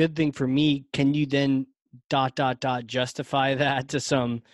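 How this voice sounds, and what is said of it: Usual voice. Nothing is said of it.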